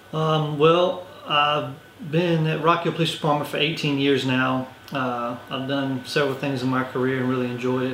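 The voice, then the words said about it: Regional dialect, words run together. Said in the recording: “I don't have the same accent that I have up here. I'm actually from Orangeburg, which is about 2 hours south, going toward the coast, and so that influences where my dialect comes from, so I kind of talk, and everything runs together”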